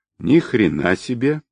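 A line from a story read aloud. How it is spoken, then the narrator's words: Drawling. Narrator (Russian): протянул Алов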